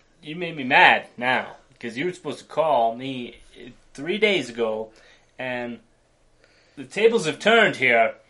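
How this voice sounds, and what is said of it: Imitates another person's voice. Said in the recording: “that's a pretty good imitation of a Jeff”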